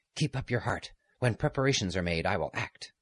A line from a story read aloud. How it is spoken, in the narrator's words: A man in a rough peasant's dress, he said hastily in a low voice to him